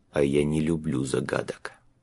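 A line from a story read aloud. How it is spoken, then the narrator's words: Very quiet, to himself. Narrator (Russian): прибавил очень тихо, почти про себя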